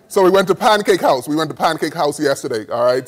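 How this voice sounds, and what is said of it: Bahamian accent. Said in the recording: “I speak a little different from the Bahamas.”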